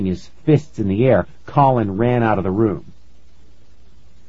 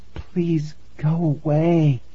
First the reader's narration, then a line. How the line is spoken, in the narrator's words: I whispered to the cat